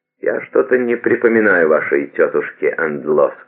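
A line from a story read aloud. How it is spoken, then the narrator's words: Plain. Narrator (Russian): сказала она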